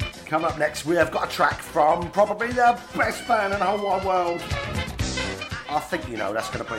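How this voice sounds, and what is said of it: Usual voice. Nothing is said of it.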